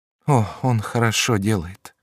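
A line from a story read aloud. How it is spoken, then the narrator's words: Sighing. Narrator (Russian): сказала, вздохнув, Диана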